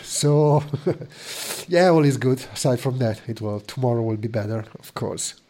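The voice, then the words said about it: Congested, sick-sounding voice. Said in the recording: “You can probably hear from my voice... I managed to get a cold anyway... I got up on New Year's Day with a nasty cold, just starting to recover.”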